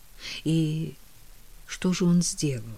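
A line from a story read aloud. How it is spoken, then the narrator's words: Soft question. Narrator (Russian): мягко спросила Кэтрин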